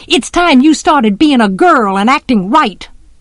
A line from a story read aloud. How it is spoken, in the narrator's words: Jem hollered